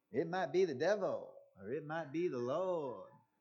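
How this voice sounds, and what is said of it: Imitates a singer's voice. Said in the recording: “Bob Dylan ... Should I do my impression?”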